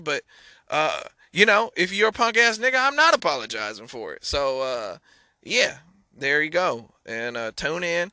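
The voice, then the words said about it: Imitates a country singer's voice. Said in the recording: “That's my best imper... I really, again, I can't do impersonations. That was my Morgan Wallen.”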